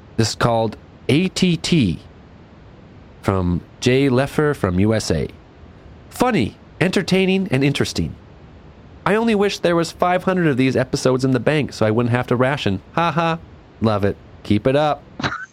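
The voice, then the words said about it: Impression of co-host reading reviews. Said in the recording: “your impression of me reading them”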